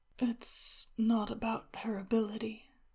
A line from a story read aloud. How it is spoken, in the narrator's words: Shenwei said, drowsily